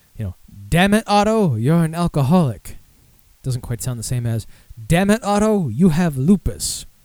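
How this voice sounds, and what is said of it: Weak Mitch Hedberg impression. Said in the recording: “Not a good Mitch Hedberg impression”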